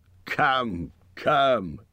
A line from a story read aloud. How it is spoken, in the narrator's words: said Thorin, laughing